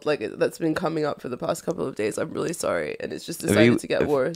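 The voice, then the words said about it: Congested voice from a cold. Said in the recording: “I have a cold, ... congested and gross”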